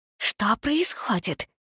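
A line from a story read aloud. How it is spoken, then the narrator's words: Hissing. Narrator (Russian): шипела Никс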